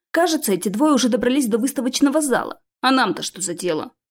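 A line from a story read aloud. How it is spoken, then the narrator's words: Gruff mutter. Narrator (Russian): буркнул Стил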